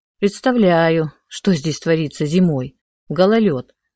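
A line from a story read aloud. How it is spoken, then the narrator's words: Sighing. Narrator (Russian): вздохнула я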